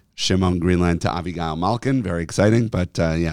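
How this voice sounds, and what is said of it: Hoarse voice. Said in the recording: “your voice is a little hoarse ... I'm a little more hoarse”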